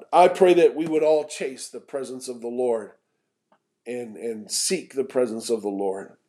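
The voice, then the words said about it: Strained voice, still recovering. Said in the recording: “I apologize. My voice is getting better every day. And by Sunday, we should be good to go.”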